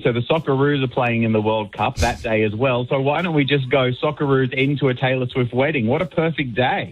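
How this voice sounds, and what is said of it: Australian accent. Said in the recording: “you can tell by my accent, I'm Aussie”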